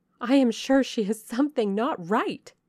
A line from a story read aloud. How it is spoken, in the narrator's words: they cried one and all